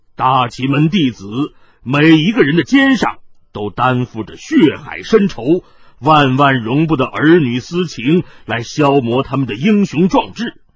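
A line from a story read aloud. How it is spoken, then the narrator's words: Deep grave voice. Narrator (Chinese): 云逸沉声道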